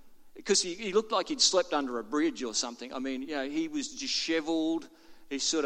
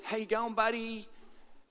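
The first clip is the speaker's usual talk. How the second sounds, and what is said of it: Fake-sounding American accent. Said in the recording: “it's a really fake-sounding American accent”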